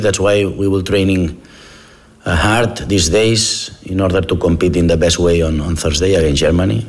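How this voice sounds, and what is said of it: English with a Spanish accent. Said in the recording (Dutch): “Engels met een Spaans accent”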